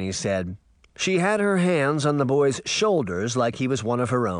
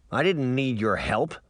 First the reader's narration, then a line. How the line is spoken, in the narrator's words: Puck grunted